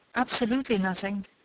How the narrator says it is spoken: said the younger

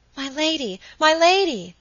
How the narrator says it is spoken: cried Phoebe

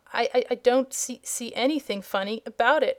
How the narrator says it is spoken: he stammered

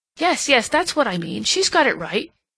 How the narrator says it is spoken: he exclaimed

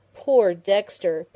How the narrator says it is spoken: Penny groaned, covering her convulsed face with her hands

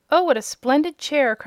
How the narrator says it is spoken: cried Dorothy, clasping her hands admiringly

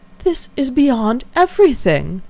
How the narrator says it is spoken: exclaimed Eleanor

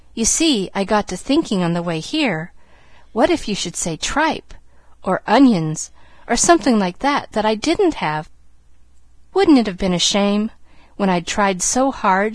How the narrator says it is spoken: she laughed merrily

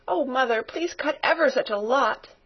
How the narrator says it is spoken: begged Pin, sniffing valiantly

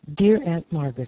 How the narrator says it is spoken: said Elnora

